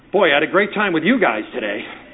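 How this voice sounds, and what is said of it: Sarcastic tone. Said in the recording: “My body language, my tone of voice ... little sarcastic look on my face ... Completely changed that message”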